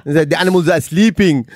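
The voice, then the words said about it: Put-on Singaporean accent. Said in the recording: “That was a Singaporean accent. ... it's almost South African.”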